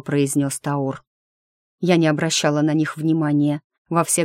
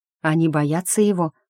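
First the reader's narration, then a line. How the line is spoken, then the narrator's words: Plain. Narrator (Russian): спросила Дрея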